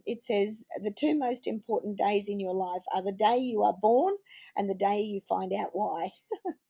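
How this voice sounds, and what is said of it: Voice in poor shape. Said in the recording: “my voice isn't good tonight”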